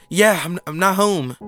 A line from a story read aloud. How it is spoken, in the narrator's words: the customer replied, still gasping for air